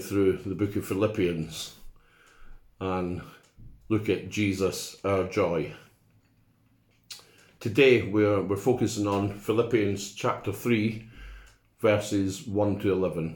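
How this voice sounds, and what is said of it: Foreign accent. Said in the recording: “my foreign accent”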